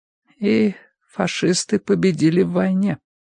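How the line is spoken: Muffled, hollow voice. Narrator (Russian): глухо проговорила миссис Битнер

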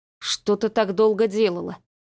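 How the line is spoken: Grumbling. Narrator (Russian): проворчал Гоша

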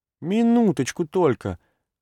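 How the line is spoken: Naive, pleading childlike voice. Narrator (Russian): говорил Чертков простодушным и просящим голосом ребенка

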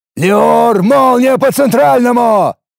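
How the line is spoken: Loud roar, old man. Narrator (Russian): Не оборачиваясь, взревел старый десятник

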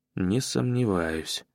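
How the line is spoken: Heavy sigh. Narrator (Russian): тяжело вздохнул я

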